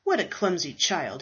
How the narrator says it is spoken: he said scoffingly

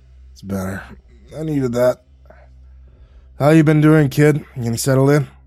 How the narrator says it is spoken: He gasped

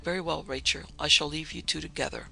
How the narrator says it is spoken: he said as calmly as he could

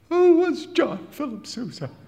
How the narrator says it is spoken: piped

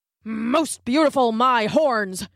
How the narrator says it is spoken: grunted a wildebeest

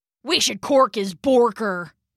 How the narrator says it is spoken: grumbled Rambo

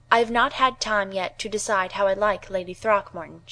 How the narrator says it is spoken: she said

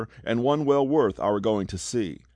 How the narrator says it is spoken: exclaimed

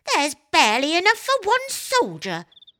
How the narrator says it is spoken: exclaimed Sir Buzz

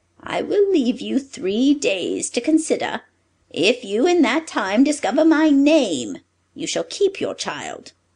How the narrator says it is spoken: the dwarf pitied her and said

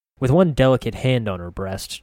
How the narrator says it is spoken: Triss sighed

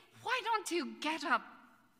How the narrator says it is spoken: the young man and the person said urgently

